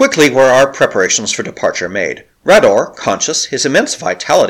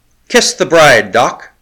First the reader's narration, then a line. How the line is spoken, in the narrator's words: cried the O'Keefe